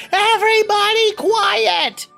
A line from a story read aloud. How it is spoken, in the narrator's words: Dot yells